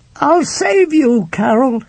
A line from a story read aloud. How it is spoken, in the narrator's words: he shouted